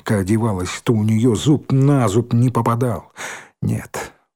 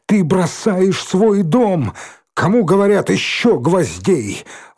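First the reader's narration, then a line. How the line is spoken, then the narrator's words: Commanding shout. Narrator (Russian): Он так повелительно крикнул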